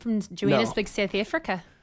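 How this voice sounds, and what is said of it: Put-on South African accent. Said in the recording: “the South African accent. ... That's almost Kiwi-esque.”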